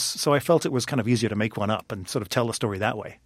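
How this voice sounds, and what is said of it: Northern Irish accent. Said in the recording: “People can obviously hear your accent. I will tell them that you're actually from Northern Ireland, not the Republic of Ireland.”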